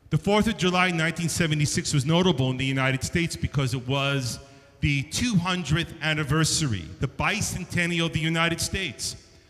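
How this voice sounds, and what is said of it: New York accent. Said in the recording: “growing up in New York, if you can't tell from the accent”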